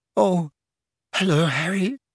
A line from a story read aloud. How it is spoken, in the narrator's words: she said in a brittle voice